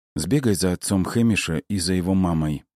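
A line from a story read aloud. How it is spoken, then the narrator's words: Plain. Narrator (Russian): наконец сказала она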